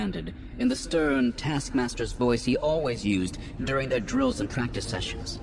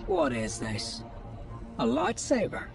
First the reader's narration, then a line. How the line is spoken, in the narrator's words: Puck muttered